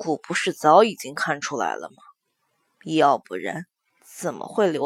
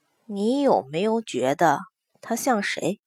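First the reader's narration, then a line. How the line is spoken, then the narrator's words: Hesitant pause. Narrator (Chinese): 她声音顿了一下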